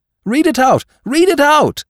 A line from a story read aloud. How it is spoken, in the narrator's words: they cried, louder